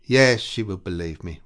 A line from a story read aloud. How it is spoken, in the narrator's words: repeated Catherine in a mournful tone